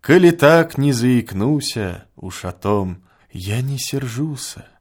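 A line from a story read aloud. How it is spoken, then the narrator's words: Quiet. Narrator (Russian): тихо молвила она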